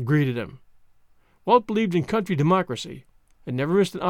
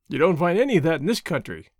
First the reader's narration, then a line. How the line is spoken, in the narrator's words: Walt laughed